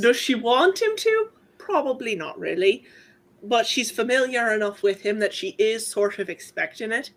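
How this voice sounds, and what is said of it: Speaks in a character's accent. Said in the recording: “saying this in her accent”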